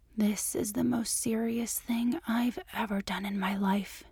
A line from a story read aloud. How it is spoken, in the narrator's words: she whispered